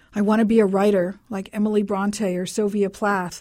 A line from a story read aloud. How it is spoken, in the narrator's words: I blurted out, dazed by the stars that filled the night sky